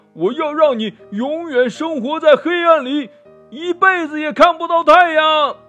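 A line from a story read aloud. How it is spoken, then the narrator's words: Furious yelling monster. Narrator (Chinese): 山魔王气得哇哇叫呀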